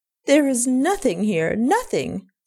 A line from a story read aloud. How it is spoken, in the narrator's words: cries passionately